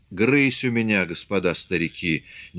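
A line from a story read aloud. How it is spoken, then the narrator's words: Indistinct whisper. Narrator (Russian): невнятно шептал Федот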